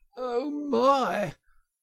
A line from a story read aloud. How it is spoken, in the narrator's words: gasped the poor toad